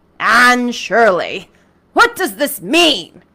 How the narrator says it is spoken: he said angrily

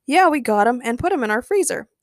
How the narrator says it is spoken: James replied happily

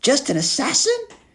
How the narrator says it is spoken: Cheyenne squeaked in English

